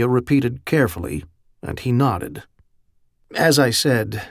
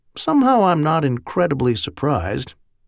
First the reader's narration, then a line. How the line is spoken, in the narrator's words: Merlin said dryly